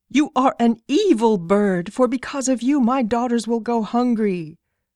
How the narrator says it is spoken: the hunter was very angry and cried

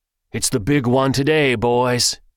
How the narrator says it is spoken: shouted

